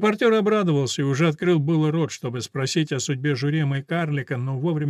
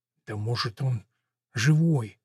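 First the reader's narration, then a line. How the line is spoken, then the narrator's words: Whispered. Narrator (Russian): снова зашептал священник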